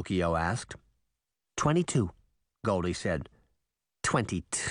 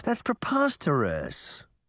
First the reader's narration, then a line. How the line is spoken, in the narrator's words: Pinocchio said, chuckling